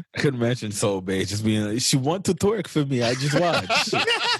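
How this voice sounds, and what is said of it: Wild Dracula-like accent impression. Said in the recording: “You got a wild accent. ... sound like Count Dracula”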